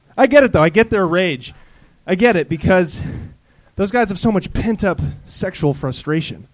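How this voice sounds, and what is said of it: Breathless, out-of-breath speech. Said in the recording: “I'm out of breath. ... It's tough to do a minute after running from some other venue.”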